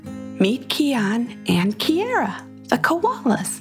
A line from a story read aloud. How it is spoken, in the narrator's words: Her mother smiled gently and said